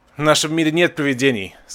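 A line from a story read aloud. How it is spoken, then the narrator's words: Said with loud laughter. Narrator (Russian): сказал, громко засмеявшись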